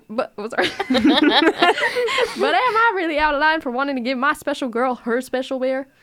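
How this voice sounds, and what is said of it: Put-on country accent. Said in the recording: “We love that good accent ... I'm getting country vibes from this”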